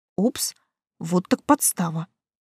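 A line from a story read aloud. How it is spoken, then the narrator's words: Muttering. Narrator (Russian): пробормотала я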